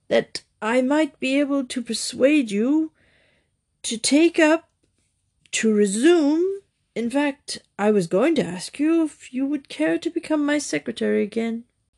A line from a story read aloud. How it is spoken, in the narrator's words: said Lord Emsworth, speaking thickly, as if the words choked him